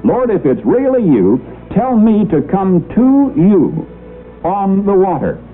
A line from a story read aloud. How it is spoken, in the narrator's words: called out